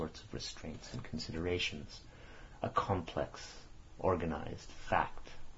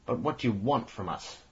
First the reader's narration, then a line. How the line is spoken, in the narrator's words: exclaimed in a deadened voice